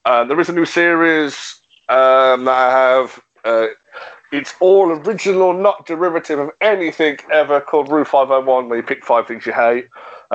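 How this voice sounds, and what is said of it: Birmingham Brummie accent. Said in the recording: “a Birmingham Brummy accent”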